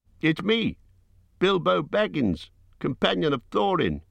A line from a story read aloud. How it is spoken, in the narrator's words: he cried